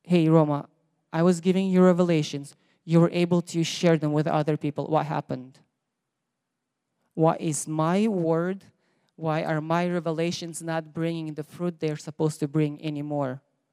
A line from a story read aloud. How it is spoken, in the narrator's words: I'm choked